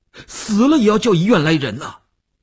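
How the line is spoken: Tense, almost shouting. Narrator (Chinese): 吴长天头皮一紧，他几乎要喊起来

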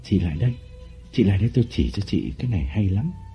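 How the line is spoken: Whisper. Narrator (Vietnamese): Lộc thì thầm

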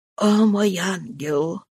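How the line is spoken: Whisper. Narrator (Russian): прошептала

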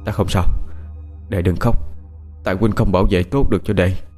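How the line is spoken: Weak whisper. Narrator (Vietnamese): miệng thì thào nói khẽ

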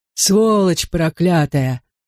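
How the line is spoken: Groaning from cover. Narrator (Russian): застонал из своего укрытия Большое Дуло

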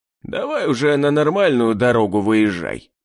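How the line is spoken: Grumbling. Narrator (Russian): проворчал Гектор

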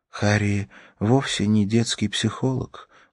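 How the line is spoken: Sad, smiling. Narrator (Russian): грустно улыбнулась Ракель

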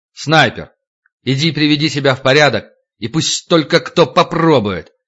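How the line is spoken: Loud announcement. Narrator (Russian): Витька громко, обращаясь ко всем присутствующим, сказал

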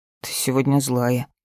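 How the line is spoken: Muttering. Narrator (Russian): буркнул

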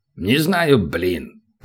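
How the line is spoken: Dwarf's rumbling drone. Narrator (Russian): прогудел гном

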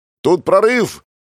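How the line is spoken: Shouted through cupped hands. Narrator (Russian): крикнул я им, сложив ладони рупором

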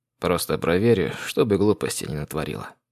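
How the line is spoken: Sighing. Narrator (Russian): вздохнул Соломон

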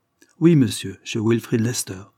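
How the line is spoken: Stern, harsh tone. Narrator (French): répondit Lord Dane d'un ton sévère et dur, sans s'en douter peut-être

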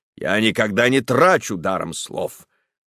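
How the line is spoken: Menacing interruption. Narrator (Russian): грозно оборвал его доктор

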